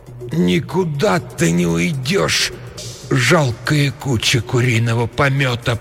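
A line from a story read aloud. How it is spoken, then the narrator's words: Moaning. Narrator (Russian): простонала она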